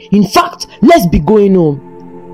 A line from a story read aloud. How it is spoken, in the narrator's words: he shouted